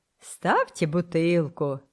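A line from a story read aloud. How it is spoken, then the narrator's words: Loud laughter. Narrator (Russian): захохотал Боцман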